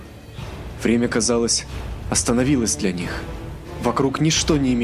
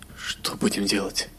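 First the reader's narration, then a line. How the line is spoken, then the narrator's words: Trembling whisper. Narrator (Russian): С дрожью в голосе прошептал Эзраиль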